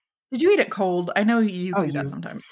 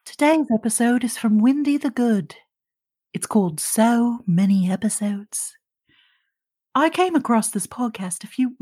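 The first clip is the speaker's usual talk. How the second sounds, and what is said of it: Put-on character reading voice. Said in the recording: “Nicholas Culpepper is here to read our review today. I don't remember the voice I did, so if he sounds a little different”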